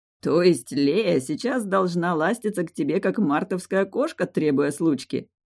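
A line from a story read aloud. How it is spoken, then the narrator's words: Loud laughter. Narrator (Russian): расхохотался ректор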